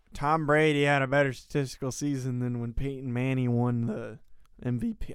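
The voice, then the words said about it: Imitates another person's voice. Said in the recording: “Whose voice is that? ... a very good impression.”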